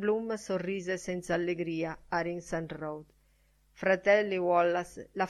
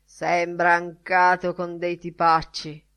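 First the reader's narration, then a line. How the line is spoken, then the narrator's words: Growled. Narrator (Italian): ringhiò Mr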